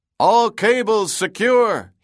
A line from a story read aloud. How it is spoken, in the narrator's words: he shouted